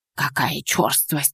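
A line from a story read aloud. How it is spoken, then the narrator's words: Whisper. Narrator (Russian): прошептала она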